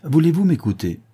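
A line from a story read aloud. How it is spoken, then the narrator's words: Exclamation. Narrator (French): s'écria Thémine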